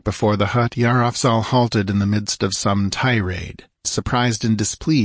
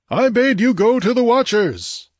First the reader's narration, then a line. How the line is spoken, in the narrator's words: the chief bellowed